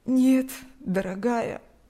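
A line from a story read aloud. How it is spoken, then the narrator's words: Sad elderly woman. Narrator (Russian): грустно улыбнулась пожилая женщина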